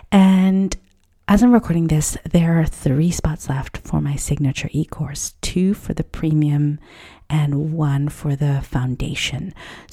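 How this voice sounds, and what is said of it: Slightly whispered, hushed speech. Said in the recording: “I'm kind of sort of whispering a tiny little bit”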